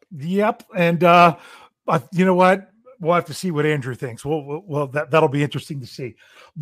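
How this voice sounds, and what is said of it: Slightly hoarse, strained voice. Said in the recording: “I'm losing my voice a little bit... I feel like I'm losing my voice.”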